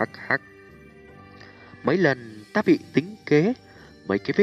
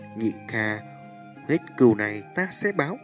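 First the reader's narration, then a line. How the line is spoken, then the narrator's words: Soft voice, deep hatred. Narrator (Vietnamese): trong thanh âm nhẹ nhàng ẩn chứa cửu hận vô tận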